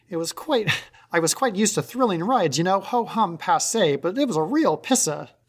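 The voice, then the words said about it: Put-on transatlantic accent. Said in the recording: “This is where the transatlantic accent, I apologize, is going to come in... I cannot read these in my normal voice.”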